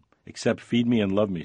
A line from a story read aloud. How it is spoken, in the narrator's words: said Janice